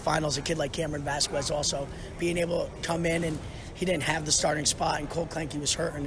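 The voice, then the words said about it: Hoarse, strained voice. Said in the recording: “his voice was a little hoarse there from cheering out”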